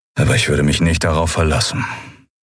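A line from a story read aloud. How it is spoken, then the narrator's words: Flat toneless voice. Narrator (German): sagte Telios mit tonloser Stimme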